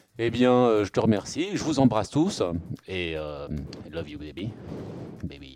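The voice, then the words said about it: Ridiculous imitation of another person's voice. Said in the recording (French): “c'était une imitation un petit peu ridicule”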